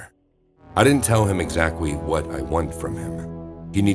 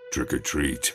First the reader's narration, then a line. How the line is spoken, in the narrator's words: he said in a deep voice